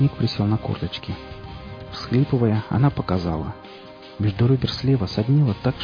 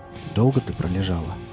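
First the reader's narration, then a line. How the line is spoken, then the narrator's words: Quiet question. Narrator (Russian): негромко спросил он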